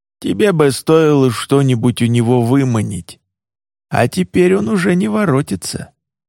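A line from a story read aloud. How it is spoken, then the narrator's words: Old, disapproving grumble. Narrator (Russian): Старый кровавый палец с неодобрением проворчал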